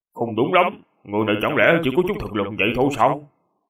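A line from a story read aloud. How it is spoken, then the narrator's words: Doubtful muttering. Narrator (Vietnamese): trong lòng Chu Hiển Dương không ngừng nghi hoặc, tự lẩm bẩm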